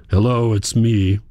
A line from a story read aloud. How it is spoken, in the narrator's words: he said in his gruff voice